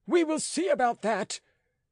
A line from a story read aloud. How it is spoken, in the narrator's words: cried Rateau